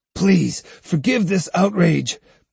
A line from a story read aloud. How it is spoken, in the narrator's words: pleaded Sahe